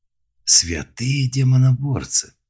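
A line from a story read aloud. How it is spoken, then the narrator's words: Wheezed with feeling. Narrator (Russian): с чувством прохрипел Малк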